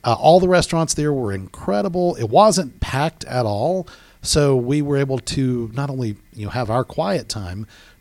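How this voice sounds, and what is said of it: Smooth radio-style narrator voice. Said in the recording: “You really sound like you should be doing an audiobook or something ... that radio voice”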